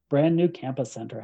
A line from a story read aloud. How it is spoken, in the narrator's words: Hester said